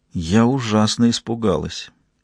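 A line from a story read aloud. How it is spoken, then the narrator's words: Quiet. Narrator (Russian): тихо сказала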